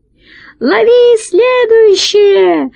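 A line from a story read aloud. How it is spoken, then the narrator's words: High-pitched shout. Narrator (Russian): закричал тонким голосом толстяк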